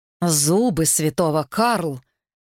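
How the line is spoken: Sighed. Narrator (Russian): вздохнул Трит

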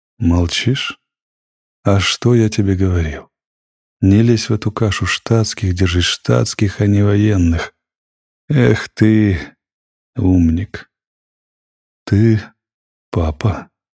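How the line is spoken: Strained, forced words. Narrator (Russian): выдавил себя прокурор

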